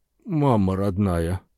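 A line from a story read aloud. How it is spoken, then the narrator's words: Stunned mutter. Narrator (Russian): пробормотал Уиллис, ошарашенно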